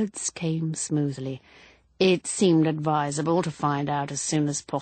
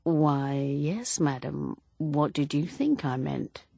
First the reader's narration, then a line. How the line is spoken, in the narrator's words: His face wooden, his voice still smooth, Inspector Neil said